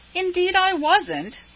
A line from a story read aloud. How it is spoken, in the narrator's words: said Laura indignantly